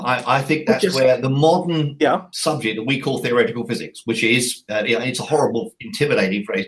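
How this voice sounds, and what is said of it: Non-American accent. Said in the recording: “you may have got from my accent, I'm not American.”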